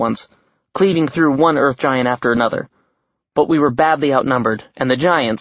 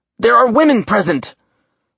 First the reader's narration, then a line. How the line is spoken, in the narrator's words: the god snarled